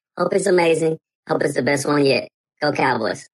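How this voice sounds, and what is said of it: Slight Southern accent. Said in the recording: “that did sound like like a bit of a southern accent there”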